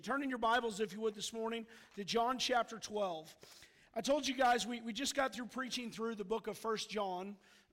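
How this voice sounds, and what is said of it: Rough, strained voice. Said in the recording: “Forgive my voice. ... It's part coming back from a cold, and I think a little bit of yelling from Missouri Tigers yesterday.”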